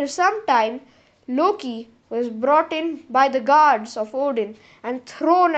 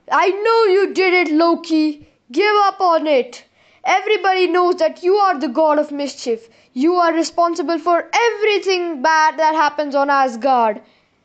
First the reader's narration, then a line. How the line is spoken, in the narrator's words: Thor screamed